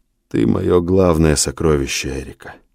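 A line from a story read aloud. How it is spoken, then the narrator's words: Quiet. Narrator (Russian): тихо сказал он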